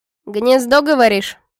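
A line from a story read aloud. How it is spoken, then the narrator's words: Skeptical hum. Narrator (Russian): Она хмыкнула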